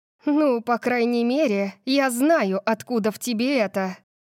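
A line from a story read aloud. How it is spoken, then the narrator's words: Breathed out. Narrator (Russian): выдохнула я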